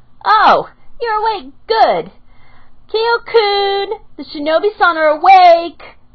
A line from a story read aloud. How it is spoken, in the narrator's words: she screeched over her shoulder